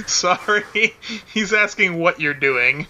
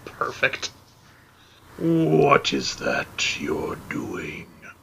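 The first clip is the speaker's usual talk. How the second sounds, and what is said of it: Deep character voice. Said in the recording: “his voice is too deep”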